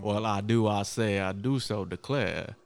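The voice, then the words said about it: Foghorn Leghorn-style southern drawl. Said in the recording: “strange southern accent. Like he sounds like the dude from the Looney Tunes, the chicken... Not Foghorn Leghorn.”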